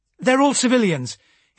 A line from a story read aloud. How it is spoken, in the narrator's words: he gasped out after a moment